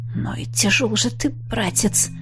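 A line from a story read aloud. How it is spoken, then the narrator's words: Snorting chuckle. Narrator (Russian): хмыкнул я, с трудом дотащив Аши до собачьего туалета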